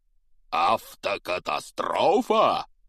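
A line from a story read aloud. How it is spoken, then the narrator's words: Thundering. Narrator (Russian): прогремел Хагрид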